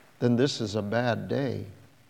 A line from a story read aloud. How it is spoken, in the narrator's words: she said quietly